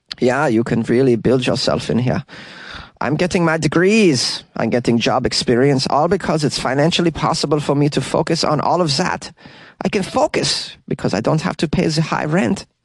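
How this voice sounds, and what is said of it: Put-on German accent. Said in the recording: “I'm going to try to get this German accent down”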